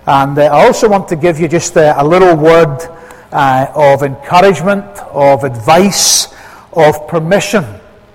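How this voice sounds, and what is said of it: Scottish accent. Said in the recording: “a Scots accent”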